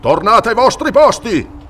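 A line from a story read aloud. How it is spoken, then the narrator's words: Thunderous voice. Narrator (Italian): tuonò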